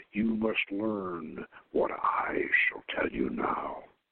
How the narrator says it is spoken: said this man in a sepulchral tone

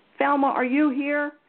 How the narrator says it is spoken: Caroline yelled at the top of her voice

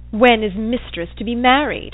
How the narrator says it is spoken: said he in a sneering tone

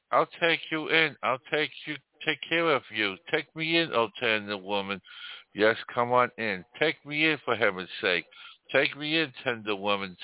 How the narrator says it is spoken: sighed the snake

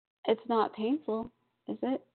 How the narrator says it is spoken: he asked timidly

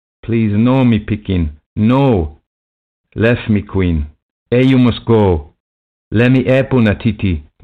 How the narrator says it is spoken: Lethera shouted

